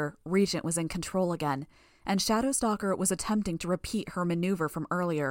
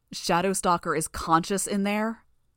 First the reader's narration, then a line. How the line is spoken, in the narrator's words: Weld shouted